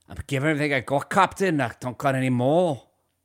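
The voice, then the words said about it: Poor put-on Scottish accent. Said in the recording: “Scottish? ... That's my Scottish accent. ... that's not a Scottish accent. It's not very good.”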